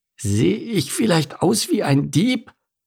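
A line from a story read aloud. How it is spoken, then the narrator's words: Croaked. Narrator (German): krächzte Mike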